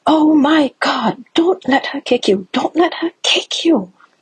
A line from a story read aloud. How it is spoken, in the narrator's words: a woman a couple seats down from us on the train jumps up and shouts